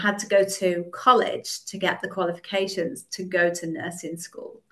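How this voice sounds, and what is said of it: British accent. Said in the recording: “I'm not great at all of the accents. I would guess somewhere in the UK ... You're correct. It's the UK.”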